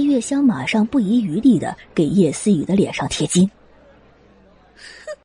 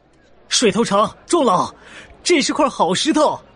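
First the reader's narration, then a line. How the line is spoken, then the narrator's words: Shout. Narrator (Chinese): 有人喊了起来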